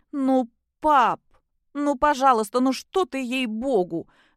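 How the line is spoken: Sudden pitiful whining. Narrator (Russian): вдруг жалко заскулила Кристина

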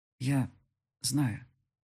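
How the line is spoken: Dull muffled voice. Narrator (Russian): глухо произнес он

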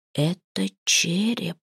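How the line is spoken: Frightened hoarse whisper. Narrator (Russian): севшим от испуга голосом шепнул Гисли

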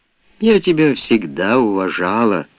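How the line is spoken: Heavy sigh. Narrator (Russian): сказала, тяжело вздохнув

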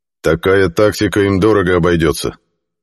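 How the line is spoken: Grim reply. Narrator (Russian): мрачно ответил Хелиарх

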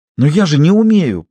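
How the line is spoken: Almost frightened girl exclaiming. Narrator (Russian): почти испуганно воскликнула девушка

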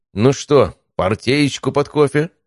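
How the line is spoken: Cheerful voice. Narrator (Russian): бодрым голосом обратился Василий Анатольевич к Олегу Валерьевичу

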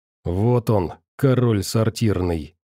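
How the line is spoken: Quiet cursing. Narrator (Russian): негромко выругался оператор

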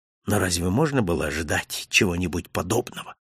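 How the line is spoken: Whisper through teeth. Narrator (Russian): прошептал я сквозь зубы

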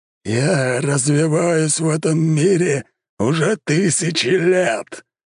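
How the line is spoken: Huge avatar roaring. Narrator (Russian): взревел здоровенный аватар

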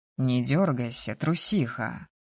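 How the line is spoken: Good-natured grumble. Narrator (Russian): беззлобно проворчал

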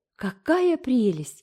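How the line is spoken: Exclaiming. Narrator (Russian): воскликнула Джейн

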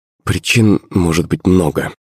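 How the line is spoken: Plain. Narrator (Russian): ответила Наталья

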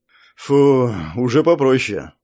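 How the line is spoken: Relieved exhale. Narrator (Russian): с облегчением выдохнул Андрей Васильевич

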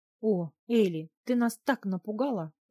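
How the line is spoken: Mother exclaiming. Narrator (Russian): воскликнула мама

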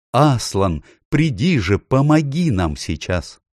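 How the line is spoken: Exclamation. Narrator (Russian): он воскликнул

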